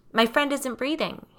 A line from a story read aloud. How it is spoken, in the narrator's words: he shouts into the phone